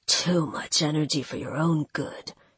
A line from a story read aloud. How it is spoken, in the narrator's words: Kale muttered